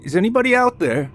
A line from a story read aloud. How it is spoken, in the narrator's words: James yelled again into the woods